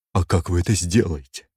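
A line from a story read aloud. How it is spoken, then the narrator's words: Trembling voice. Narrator (Russian): Басистка трепещущим голосом спросила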